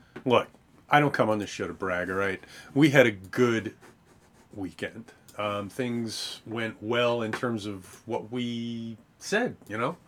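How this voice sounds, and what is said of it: Hoarse, strained voice. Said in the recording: “You can hear my voice is shot from screaming at the TV”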